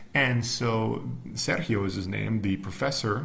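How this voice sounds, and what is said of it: Usual voice. Nothing is said of it.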